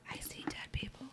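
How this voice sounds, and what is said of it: Whispered line. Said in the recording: “That's whispering.”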